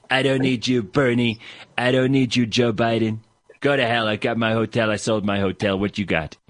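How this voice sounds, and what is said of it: Spot-on Donald Trump impression. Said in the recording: “That's like spot on impersonation of Donald Trump.”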